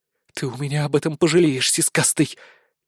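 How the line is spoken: Quiet snort. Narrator (Russian): тихо фыркнула Безос

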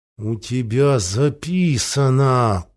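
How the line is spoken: Through gritted teeth. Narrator (Russian): процедил Дерфунье

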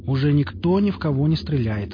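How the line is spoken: Plain. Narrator (Russian): сказал химик

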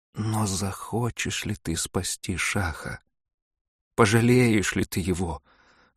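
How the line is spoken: Timid question. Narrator (Russian): робко спросила

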